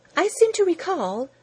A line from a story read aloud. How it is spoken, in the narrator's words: Rose Thinker chirped somewhat unkindly